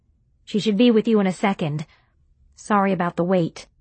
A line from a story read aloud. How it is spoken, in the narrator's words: she said, in a more reasonable tone